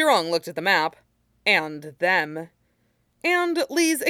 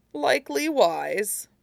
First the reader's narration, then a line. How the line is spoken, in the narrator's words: Mushi chuckled